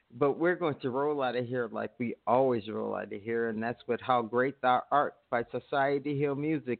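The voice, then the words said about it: Tired, worn-down voice. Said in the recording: “I'm winding down, too. I don't know if you can tell. My voice is getting tireder”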